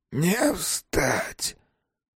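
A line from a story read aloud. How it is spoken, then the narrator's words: Weak voice after coughing. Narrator (Russian): Слабым голосом договорил больной, прокашлившись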